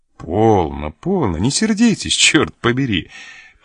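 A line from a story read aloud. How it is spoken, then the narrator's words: Conciliatory tone. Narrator (Russian): примирительным тоном произнес Лане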